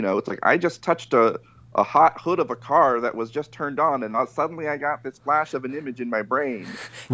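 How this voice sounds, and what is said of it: Imitates another person's voice. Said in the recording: “pretty good Lynch impression”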